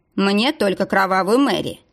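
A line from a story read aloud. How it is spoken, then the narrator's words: Sharp reply. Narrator (Russian): резко ответил Никита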